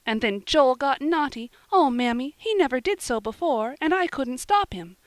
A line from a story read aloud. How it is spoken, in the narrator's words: cried Polly, in great distress